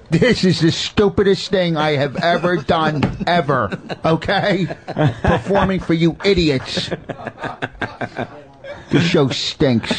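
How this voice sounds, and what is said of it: Imitates another person's voice. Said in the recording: “he sounds like fucking idiot boss ... my best impression of a hack”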